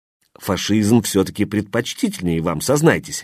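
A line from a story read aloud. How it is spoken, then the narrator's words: Cheerful question. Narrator (Russian): весело спросил Безлётов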